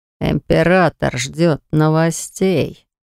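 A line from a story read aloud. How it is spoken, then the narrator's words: Demon speaking through teeth. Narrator (Russian): процедил демон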